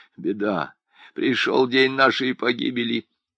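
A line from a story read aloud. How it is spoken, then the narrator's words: Crowd muttering. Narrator (Russian): Забормотали люди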